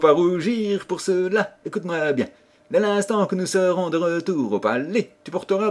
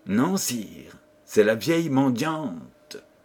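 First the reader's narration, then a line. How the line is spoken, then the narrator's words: Plain. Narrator (French): répondit Cœur d'Or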